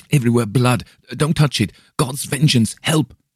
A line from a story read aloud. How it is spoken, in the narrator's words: gasped